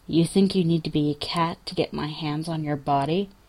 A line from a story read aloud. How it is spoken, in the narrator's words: his lips are almost brushing Jensen's ear when he says, softly